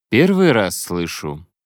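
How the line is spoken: Cold. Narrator (Russian): холодно добавил Хэппи

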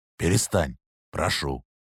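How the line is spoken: Even, quiet, restrained. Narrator (Russian): произнес, ровно, негромко, на этот раз даже без восклицаний

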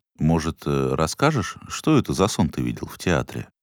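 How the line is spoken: Hesitant request. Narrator (Russian): Неуверенно попросил он

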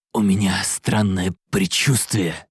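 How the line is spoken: Agitated, manic whisper. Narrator (Russian): прошептал он в сильном волнении, с улыбкой сумасшедшего

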